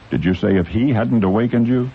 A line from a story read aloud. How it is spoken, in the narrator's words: he asked